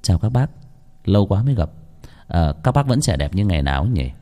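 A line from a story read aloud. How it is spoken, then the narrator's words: Gentle refined voice. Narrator (Vietnamese): giọng nói nhẹ nhàng nho nhã vang lên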